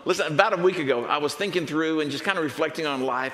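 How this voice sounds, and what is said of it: Texan accent. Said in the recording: “the accent that you're hearing ... I think Jesus would sound like a Texan”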